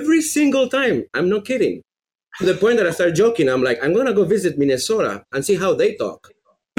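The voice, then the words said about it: Heavy Venezuelan accent, fast speech. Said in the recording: “this guy has a heavy accent ... Venezuela ... you are a very fast”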